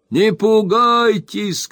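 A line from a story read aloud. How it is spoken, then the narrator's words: Reassuring shout, old man. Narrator (Russian): крикнул старый хозяин, не желая тревожить дочерей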